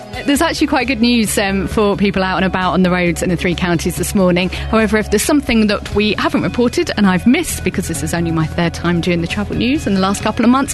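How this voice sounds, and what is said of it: Posh put-on voice. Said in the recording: “posh voice ... Why don't you do your posh voice normally? Speak in your normal common voice.”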